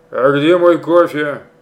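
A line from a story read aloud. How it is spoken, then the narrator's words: Barked. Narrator (Russian): рявкнул Пустовойтов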